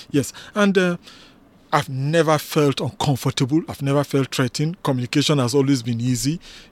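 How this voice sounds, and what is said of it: Nigerian accent. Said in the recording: “when I start speaking that my accent gives me away... a doctor from Nigeria”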